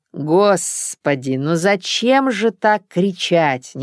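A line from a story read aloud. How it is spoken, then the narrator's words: Displeased drawl. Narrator (Russian): недовольно протянула девушка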